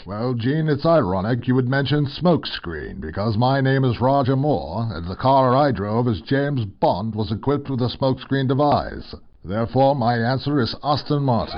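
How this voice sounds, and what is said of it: Snooty British accent. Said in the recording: “snooty British accent of yours”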